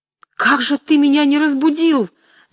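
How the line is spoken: Shouting. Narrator (Russian): закричала Настасья Андреевна

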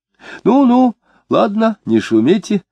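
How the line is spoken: Dejected squeal. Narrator (Russian): откликнулся Бердников ... и уныло взвизгнул

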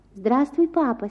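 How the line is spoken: Soft voice. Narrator (Russian): сказал он мягким голосом

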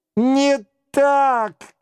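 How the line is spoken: Furious shouting. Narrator (Russian): кричала рыжая в сильном гневе

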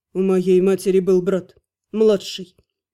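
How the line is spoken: Through gritted teeth. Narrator (Russian): процедил Терн

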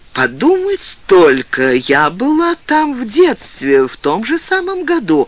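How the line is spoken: Joyful. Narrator (Russian): сказала Джоун радостно

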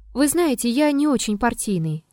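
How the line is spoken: Plain. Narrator (Russian): ответил Триродов

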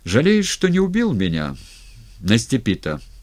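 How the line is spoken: Plain question. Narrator (Russian): спросил еще Фрол

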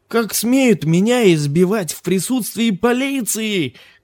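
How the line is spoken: Shouting carter. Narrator (Russian): кричал возчик

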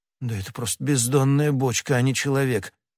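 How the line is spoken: Muttered. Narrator (Russian): пробормотал хозяин

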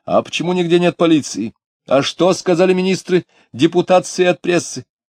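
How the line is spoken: Shouting after someone. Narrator (Russian): кто-то чернобородый в тяжелой шубе крикнул вслед ему

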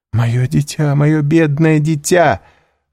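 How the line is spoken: Sobbing exclamation. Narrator (Russian): воскликнула баронесса, стараясь платком заглушить рыдание

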